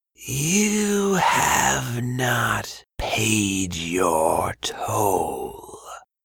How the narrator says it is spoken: Bantu rasped

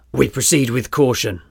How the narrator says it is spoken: Rossi barked

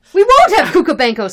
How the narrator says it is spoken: screamed another party

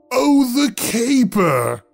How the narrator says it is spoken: he roared

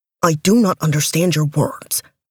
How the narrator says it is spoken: he growled

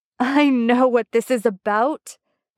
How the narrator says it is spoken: cried Arthur, breaking into another gale of laughter

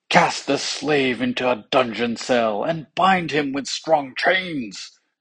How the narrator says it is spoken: cried the king

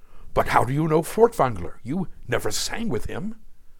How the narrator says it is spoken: Reeling in disbelief stammered

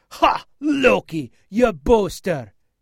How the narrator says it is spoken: roared

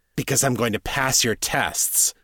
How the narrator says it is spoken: Jared snarled

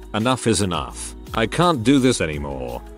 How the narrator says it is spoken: I just calmly said

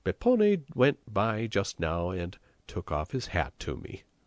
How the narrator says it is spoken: he said gaily

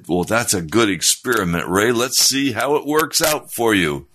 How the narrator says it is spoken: Daddy just laughed and he said

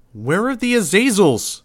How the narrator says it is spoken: shouted

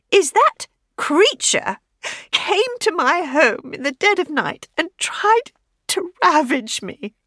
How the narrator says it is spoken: Teach said, her voice trembling, tears glistening

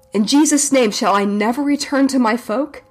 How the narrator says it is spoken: with weakened voice cried out

